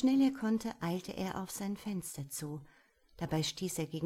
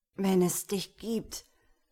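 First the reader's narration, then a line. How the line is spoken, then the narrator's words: Croaked. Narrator (German): krächzte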